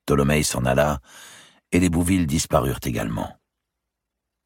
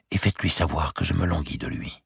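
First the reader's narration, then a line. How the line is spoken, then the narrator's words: Whispered in ear. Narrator (French): lui murmura-t-elle à l'oreille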